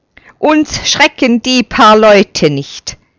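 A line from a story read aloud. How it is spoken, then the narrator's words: Called out. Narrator (German): ruft er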